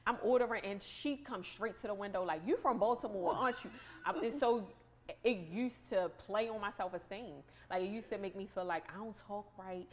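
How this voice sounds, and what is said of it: Thick Baltimore accent. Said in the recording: “my accent is super thick ... they always know I'm from Baltimore”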